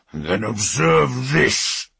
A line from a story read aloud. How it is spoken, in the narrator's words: he snarled